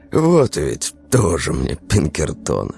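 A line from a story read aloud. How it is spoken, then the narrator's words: Wry snort. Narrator (Russian): Максимов хмыкнул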